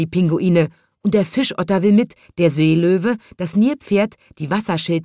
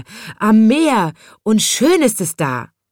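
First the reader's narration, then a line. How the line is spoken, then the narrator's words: Polar bear shouting. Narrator (German): schreit der Eisbär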